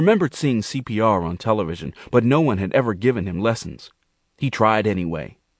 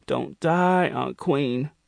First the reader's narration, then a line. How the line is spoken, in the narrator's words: he moaned